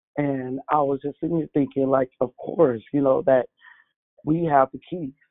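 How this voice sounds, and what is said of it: Hoarse, voice going out. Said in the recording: “Excuse my voice is going out a little bit”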